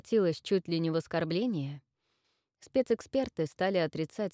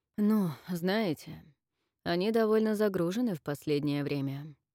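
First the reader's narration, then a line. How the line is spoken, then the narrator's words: Tired reply. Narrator (Russian): устало ответил спецэксперт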